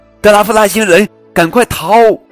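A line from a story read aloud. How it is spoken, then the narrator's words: Someone shouting. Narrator (Chinese): 又有人喊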